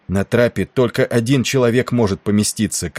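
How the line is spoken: Shouted. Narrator (Russian): крикнул Брайерли

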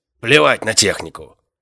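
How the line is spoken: Barked. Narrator (Russian): рявкнул темноволосый

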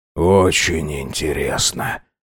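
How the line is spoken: Ominous tone. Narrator (Russian): нехорошим голосом произнес он

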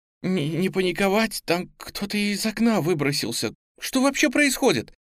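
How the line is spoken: Trembling voice. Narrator (Russian): дрожащим голосом произнесла Настя

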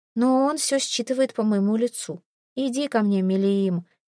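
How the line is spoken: Soft. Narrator (Russian): мягко произносит

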